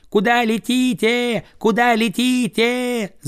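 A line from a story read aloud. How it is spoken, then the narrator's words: Children shouting. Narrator (Russian): закричали дети, услыхав клики диких гусей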